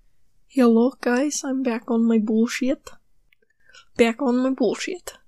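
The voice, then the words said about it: Put-on unidentifiable accent. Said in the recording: “I have no idea what accent that is”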